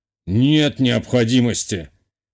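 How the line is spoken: Dismissive snort. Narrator (Russian): хмыкнул глава теневого сообщества

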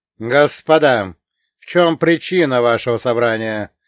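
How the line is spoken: Sharp, loud speech. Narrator (Russian): резко и громко произнес я

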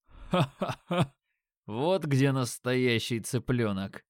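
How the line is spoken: Laughing. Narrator (Russian): Рассмеялся брюнет

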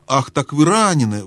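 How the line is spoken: Exclamation. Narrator (Russian): воскликнула Люси

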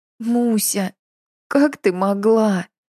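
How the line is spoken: Girl sobbing. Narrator (Russian): всхлипнула девушка

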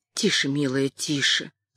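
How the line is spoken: Gentle soothing murmur. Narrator (Russian): начала ласково бормотать, как будто успокаивала одного из малышей Кэтрин

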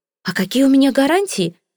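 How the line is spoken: Exclaimed. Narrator (Russian): воскликнула она

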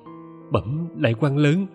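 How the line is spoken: Nervous trembling voice. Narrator (Vietnamese): Trống ngực nện thình thịch, chị vội run run

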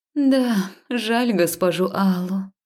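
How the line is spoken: Breathy exhale. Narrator (Russian): выдохнула Алия

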